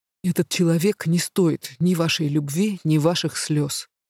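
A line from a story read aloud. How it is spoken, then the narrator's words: Even tone. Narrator (Russian): произнес дракон ровным тоном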